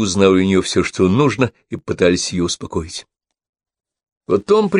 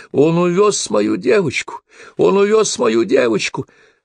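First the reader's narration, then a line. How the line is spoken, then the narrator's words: Hysterical sobbing shout. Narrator (Russian): Кристина истерически рыдала и кричала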